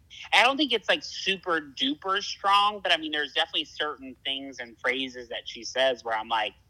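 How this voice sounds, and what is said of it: Southern American accent. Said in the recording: “she loved my accent ... when I'm trying to, like, not sound super southern ... your southern accent”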